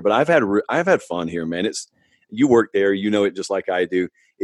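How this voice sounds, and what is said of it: Southern drawl. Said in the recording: “the Southern drawl that I had, I still have it now”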